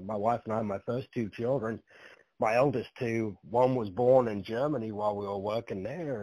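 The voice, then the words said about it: Noticeable non-American accent. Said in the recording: “Where's this accent from?”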